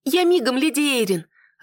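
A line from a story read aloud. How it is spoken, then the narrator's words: Happy squeak. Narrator (Russian): радостно пискнула Нетта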